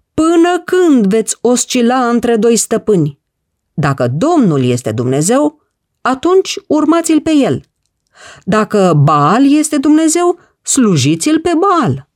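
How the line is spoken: Booming shout. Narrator (Romanian): Cu o voce răsunătoare, Ilie a strigat

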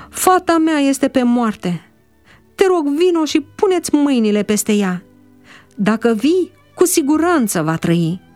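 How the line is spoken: Sighing, sobbing. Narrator (Romanian): a suspinat el

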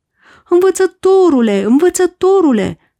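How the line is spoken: Group shouting. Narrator (Romanian): au strigat ei

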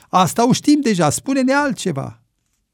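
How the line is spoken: Group shouting. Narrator (Romanian): Indienii au strigat

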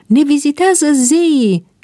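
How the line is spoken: Crowd screaming. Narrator (Romanian): țipau oamenii

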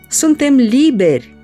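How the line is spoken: Exclaimed. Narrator (Romanian): au exclamat ei

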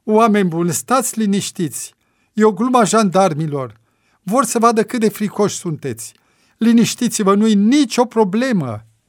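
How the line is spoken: Nearly shouting. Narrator (Romanian): aproape că striga Nea Diniță

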